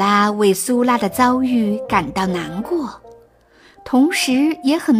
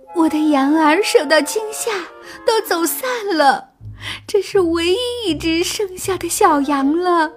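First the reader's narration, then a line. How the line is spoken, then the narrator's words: Tearful complaint. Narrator (Chinese): 苏拉哭诉着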